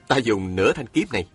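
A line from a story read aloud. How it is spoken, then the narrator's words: Smiling. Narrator (Vietnamese): Chàng mỉm cười nói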